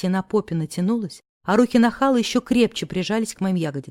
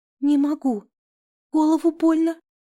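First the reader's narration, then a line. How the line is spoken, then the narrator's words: Sobbing. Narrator (Russian): всхлипнула я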